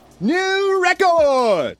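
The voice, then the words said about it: Video game announcer voice. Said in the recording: “my Mario Party announcer impersonation”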